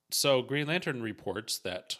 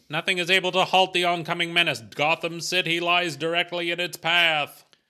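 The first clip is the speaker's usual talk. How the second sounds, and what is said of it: Dramatic old-time radio announcer voice. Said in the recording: “Oh, this is a radio voice.”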